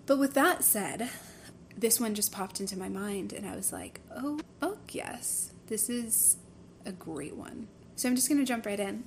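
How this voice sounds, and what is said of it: Strained, frying voice. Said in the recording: “My voice is already frying”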